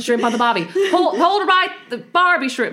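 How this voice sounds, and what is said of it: Put-on Australian accent. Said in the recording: “Can you do it in Australian accent?”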